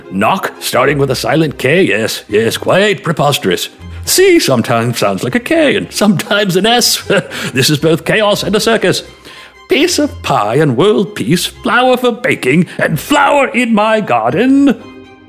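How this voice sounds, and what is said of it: Loud, enthusiastic put-on accent. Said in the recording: “I have no idea what accent I'm doing there, but I'm doing it loudly and with enthusiasm”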